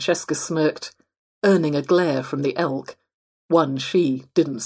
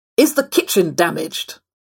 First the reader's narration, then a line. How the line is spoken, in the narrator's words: Clifford barked at Lucas